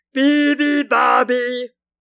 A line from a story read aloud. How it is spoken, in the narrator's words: thundered the moose and the water buffalo